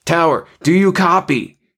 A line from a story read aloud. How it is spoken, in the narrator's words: he shouted